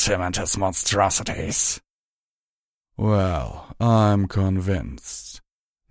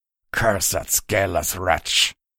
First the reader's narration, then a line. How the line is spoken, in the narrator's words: Drelazadar growled